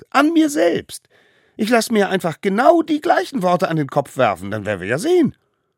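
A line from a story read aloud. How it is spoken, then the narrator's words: Smallest one calling. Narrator (German): rief der Allerkleinste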